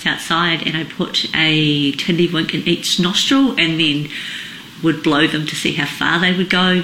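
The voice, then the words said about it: Speaks with a noticeable accent. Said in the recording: “the accent is maybe a little hard to hear it”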